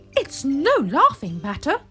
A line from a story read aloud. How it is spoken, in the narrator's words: said Rudolph angrily